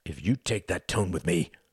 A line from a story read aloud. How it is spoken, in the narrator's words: snarled Quentin